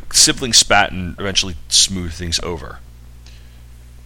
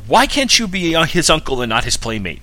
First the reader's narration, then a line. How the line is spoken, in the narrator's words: yelling